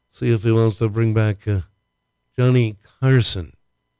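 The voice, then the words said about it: Imitates another person's voice. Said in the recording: “That's my Johnny Carson impression. ... It was pretty good. ... Yeah, it wasn't.”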